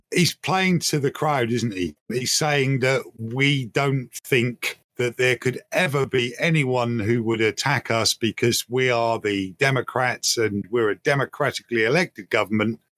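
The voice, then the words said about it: British accent. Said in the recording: “Obviously, I'm British. I don't know if you can tell from my accent.”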